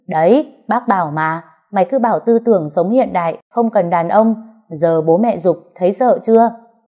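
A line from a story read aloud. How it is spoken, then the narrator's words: Loud laughing. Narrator (Vietnamese): Mẹ chồng tôi cười lớn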